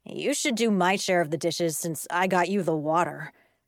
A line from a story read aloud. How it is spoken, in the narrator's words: my brother said